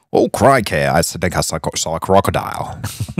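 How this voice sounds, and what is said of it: Put-on Australian accent. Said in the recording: “Can you do anything in the Australian accent?”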